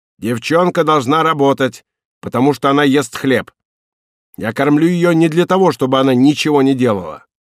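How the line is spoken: Angrily said. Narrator (Russian): Она сердито сказала

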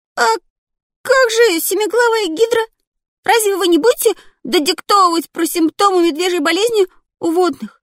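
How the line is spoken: Protesting squeak. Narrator (Russian): протестующе пискнул

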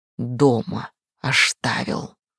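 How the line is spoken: Hissing howling cat. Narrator (Russian): прошипел, провыл кошак

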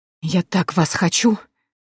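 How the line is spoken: Hoarse whisper from corridor. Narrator (Russian): доносится сиплый шепот из коридора

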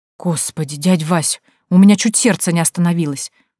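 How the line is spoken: Startled exhale. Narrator (Russian): выдохнула Танька, когда перед нами появился сторож клуба

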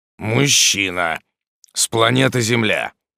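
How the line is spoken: Displeased grumble. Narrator (Russian): пробурчал недовольный демон за ее спиной

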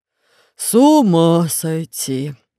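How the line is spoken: Sighing. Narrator (Russian): вздохнул Громозека

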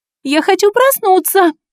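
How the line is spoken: Shouting. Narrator (Russian): Закричала я

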